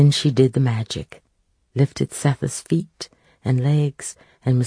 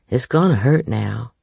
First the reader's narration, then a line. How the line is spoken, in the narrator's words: said Amy